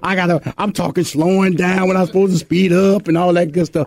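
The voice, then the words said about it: Texan Southern US accent. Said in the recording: “my old country Houston, Texas accent”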